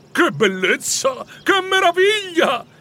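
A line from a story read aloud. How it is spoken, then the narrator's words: Delighted exclamation. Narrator (Italian): esclamò, battendo le mani per la contentezza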